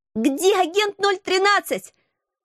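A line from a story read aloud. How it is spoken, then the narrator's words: Screaming over fire noise. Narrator (Russian): завопила я, пытаясь перекричать треск и шум пожара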